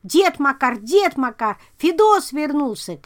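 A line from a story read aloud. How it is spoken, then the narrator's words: Boy shouting. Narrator (Russian): кричал мальчишка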